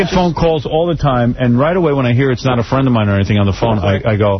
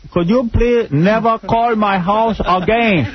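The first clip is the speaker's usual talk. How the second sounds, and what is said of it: Shifting put-on accent, Ricky Ricardo-like. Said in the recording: “It's Ricky Ricardo. ... what accent am I doing? ... Well, it started out Chinese and it went Cuban. ... I do this weird, scary accent and it morphs”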